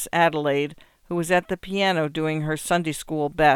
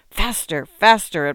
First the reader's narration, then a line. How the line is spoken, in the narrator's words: hissing